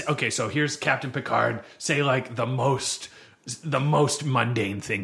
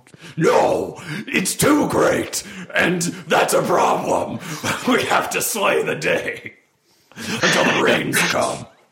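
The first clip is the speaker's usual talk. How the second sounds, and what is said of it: Overreacting Worf character impression. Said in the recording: “Let me do my Worf impression ... That's Worf overreacts to friggin' everything ... that's first season Star Trek Worf”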